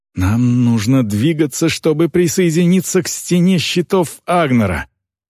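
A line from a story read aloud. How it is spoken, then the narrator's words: Growling. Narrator (Russian): Грэнд зарычал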